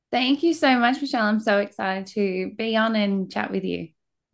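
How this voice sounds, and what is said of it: Australian accent. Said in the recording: “a dear friend from Australia ... You are going to love her special accent”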